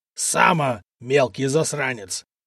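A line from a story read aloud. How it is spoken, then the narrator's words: Furious growl. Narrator (Russian): прорычал разъяренный купец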